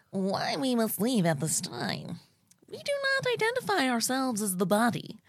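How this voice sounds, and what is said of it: Imitates another person's voice. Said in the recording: “You read it in your best Glenote voice ... What do you think Glenody would sound like?”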